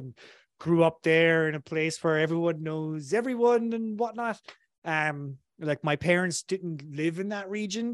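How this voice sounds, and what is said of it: Irish accent. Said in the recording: “from my accent, you might tell I come from Ireland originally”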